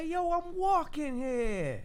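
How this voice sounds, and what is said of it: Put-on New Jersey accent. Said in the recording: “That might be my best accent. ... I'm not saying that was good.”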